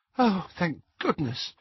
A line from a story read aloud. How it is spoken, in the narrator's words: said Hermione weakly